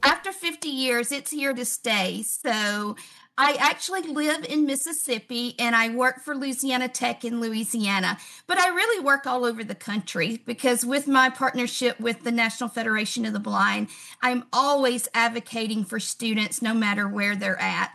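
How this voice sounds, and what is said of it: English or New Zealand-sounding accent. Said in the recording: “your accent suggests that you're not from around Baltimore ... I was thinking England, but or New Zealand ... That is one of the first things people pick out is my accent.”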